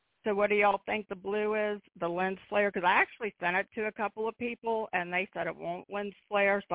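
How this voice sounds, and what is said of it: Damaged, strained voice. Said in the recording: “my voice is still messed up from when I had the surgery”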